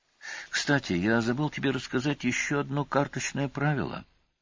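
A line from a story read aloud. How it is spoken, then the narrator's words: Quiet. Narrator (Russian): тихо сообщил Олис базе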